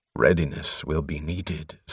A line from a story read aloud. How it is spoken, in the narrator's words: said Morum grimly